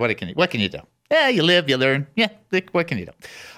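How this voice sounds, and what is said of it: Usual voice. Nothing is said of it.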